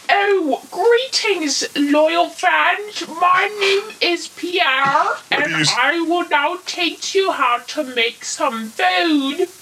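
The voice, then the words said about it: Ridiculous put-on British accent. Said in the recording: “Why do you sound like you belong on Monty Python? ... using this ridiculous British accent”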